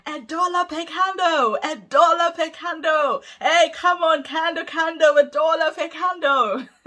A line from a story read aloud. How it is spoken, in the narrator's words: in the market square screaming